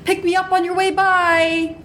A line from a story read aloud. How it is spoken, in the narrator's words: she'll shout